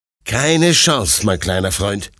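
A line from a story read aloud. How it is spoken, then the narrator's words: Plain. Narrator (German): sagt Detlef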